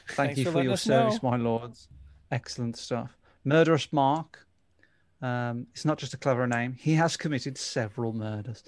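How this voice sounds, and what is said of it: Peaky Blinders-style English accent. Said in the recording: “Says Peaky Blinders. I think he's saying that because of my accent.”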